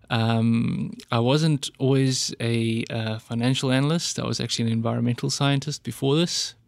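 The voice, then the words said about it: South African accent. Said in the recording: “You can probably hear from my accent that I'm not from around here. ... So I'm originally a South African.”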